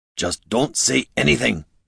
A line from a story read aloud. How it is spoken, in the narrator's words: hissed Gorm